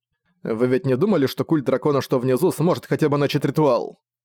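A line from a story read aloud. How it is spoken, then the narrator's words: Stung, snapping. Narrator (Russian): Огрызнулся он, намек, что он оставил Кирилли, задел его сильнее, чем он ожидал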